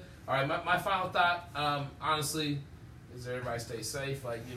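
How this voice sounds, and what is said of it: Usual voice. Nothing is said of it.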